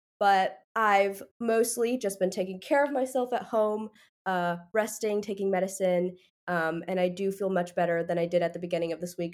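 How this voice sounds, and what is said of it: Congested, slightly odd voice. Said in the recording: “I am a bit sick right now. My sinuses are kind of messed up, so that's why my voice is a little weird”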